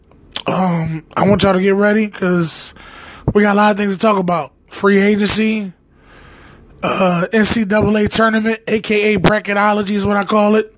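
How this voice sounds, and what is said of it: Congested voice from a cold. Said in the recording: “as you can hear in my voice, I'm trying to get rid of this cold”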